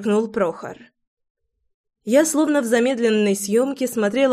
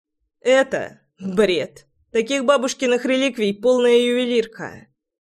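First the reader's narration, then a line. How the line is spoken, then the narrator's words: Scoffing snort. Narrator (Russian): фыркнул Прохор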